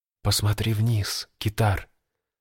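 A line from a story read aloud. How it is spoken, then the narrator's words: Barely audible whisper. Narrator (Russian): едва слышно прошептала нимфа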